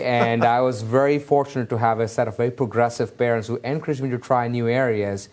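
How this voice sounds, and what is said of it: Indian English accent. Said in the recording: “you're going to tell this from ... my accent, but I grew up in Mumbai, India.”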